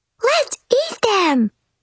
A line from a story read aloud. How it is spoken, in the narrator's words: cried Baby Bear